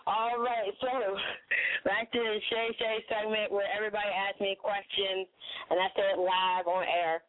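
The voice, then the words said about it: Hoarse, cracking, worn-out voice. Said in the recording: “Sorry, guys, for my voice being cracked up... My voice is gone... Definitely lost my voice.”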